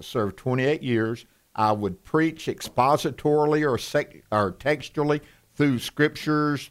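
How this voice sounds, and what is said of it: Thick Southern US accent. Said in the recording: “I've got this Southern accent that I've worked on, and everybody thinks it's thick now.”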